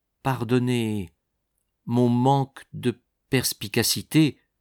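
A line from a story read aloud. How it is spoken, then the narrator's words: Slow. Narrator (French): dit-il lentement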